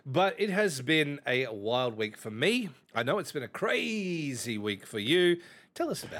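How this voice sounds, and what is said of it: Australian accent. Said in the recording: “I'm just talking like a normal Australian.”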